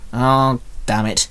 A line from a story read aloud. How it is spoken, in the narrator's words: Shinzo muttered